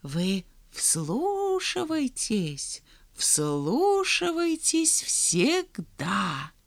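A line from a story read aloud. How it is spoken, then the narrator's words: Old voice whispering close. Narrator (Russian): прошептал старческий голос у них над ухом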